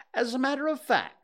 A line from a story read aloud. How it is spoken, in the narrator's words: said Rabbit